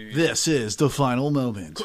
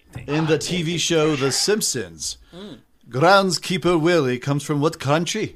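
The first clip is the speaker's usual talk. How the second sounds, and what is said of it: Poorly done put-on accent. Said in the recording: “that was a really bad accent.”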